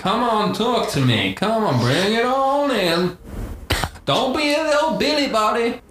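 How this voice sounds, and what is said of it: Santa character with Texan accent. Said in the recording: “You sound quite strange, Santa ... this isn't your normal voice ... really I'm from Texas”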